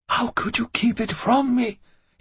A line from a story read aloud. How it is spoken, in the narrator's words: he whispered